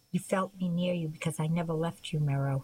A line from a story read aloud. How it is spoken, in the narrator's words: he said